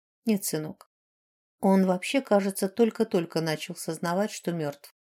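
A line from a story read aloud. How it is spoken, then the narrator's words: Quiet. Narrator (Russian): тихо ответила матушка Шанэ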